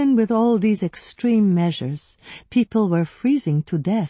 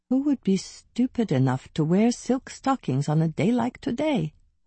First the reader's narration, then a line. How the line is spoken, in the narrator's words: I murmured